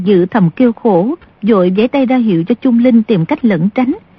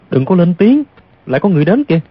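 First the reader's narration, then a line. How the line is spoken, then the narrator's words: Sudden soft voice. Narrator (Vietnamese): Bỗng Du Thản Chi khẽ nói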